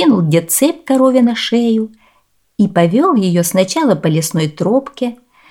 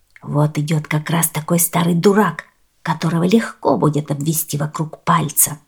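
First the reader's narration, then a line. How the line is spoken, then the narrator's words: Whispered. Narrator (Russian): шепнули мошенники друг другу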